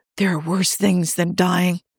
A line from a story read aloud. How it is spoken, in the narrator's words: Joe whispers